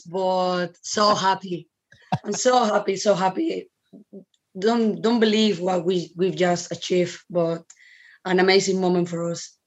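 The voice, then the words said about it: Hoarse, strained voice. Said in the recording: “I'm actually don't know where my voice is”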